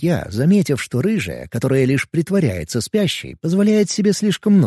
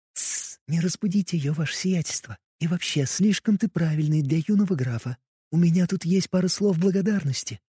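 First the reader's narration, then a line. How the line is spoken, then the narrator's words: Whispered reply, little witch. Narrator (Russian): прошептала в ответ эта ведьмочка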